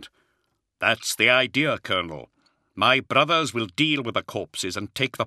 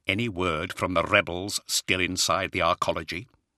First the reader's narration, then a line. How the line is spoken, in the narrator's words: he quietly asked Zahariel